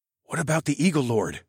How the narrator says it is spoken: I whispered to Tallgrass

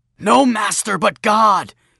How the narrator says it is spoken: he shouted

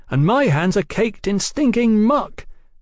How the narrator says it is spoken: Brian cried

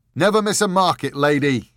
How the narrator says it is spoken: he thundered cheerfully

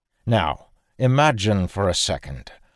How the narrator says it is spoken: Arik said gravely

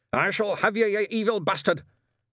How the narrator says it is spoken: shouted

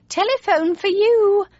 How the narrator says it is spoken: my mother called out

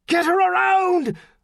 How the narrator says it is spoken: McNeil bellowed at his helmsman

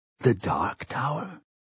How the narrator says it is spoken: He whispered the words

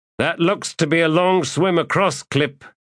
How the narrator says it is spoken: Skintik called out to the warrior

